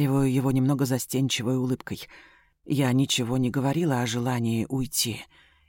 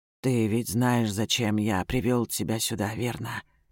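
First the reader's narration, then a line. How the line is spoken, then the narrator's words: Hoarse question. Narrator (Russian): хрипло уточняет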